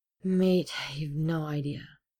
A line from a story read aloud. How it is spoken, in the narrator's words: Ed sighed